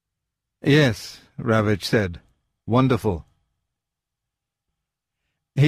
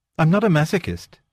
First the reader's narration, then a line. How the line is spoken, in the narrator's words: said